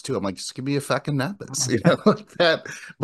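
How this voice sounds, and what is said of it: Put-on East Coast accent. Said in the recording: “I felt like I'm coming off very non-Eastern, East Coast ... I just started to do their accent back ... the dialect or the accent”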